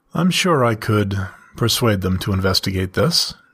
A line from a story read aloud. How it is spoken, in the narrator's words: chuckled